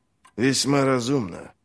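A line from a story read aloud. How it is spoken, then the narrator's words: Muttered. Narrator (Russian): пробормотал Глокта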